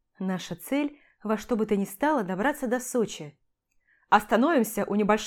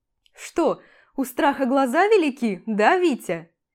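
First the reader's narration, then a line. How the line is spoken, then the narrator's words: Giggling. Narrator (Russian): Хихикает Антон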